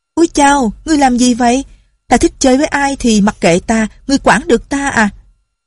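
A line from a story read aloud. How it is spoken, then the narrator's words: Girl's shout. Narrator (Vietnamese): có tiếng con gái ở hậu đường la lên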